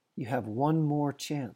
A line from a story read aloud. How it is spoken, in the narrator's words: says the stag